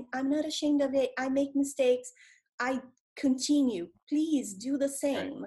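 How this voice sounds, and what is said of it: Non-native English accent. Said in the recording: “you hear me speaking English with you all the time with my accent.”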